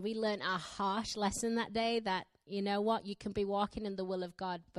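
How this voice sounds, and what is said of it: Broad Yorkshire English accent. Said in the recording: “I have a weird accent ... my Yorkshire dialect. I'm from the northern part of England and we have quite a broad accent.”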